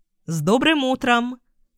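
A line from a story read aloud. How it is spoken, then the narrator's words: In unison. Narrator (Russian): одновременно сказали родители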